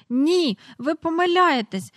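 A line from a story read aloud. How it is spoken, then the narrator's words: Desperate cry. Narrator (Ukrainian): розпачливо скрикнула Джейн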